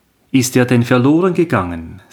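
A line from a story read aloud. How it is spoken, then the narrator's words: Plain. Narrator (German): sagte der eine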